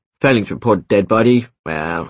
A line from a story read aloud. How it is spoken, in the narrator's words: he scoffed